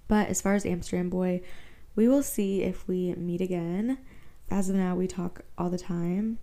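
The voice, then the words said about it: Tired, odd-sounding late-night voice. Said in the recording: “my voice sounds psycho right now... I'm tired. It's like 2 a.m. right now.”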